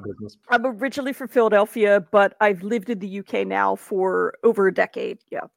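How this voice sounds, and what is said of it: American accent. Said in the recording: “as we could probably tell by your accent, you are American born”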